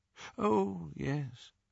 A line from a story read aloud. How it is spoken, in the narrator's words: said Dumbledore faintly